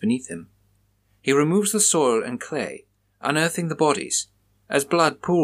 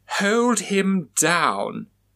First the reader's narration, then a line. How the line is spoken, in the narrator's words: she exclaimed